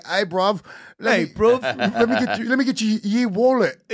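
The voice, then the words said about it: Mock British accent. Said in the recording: “British people ... their accent is so adorable”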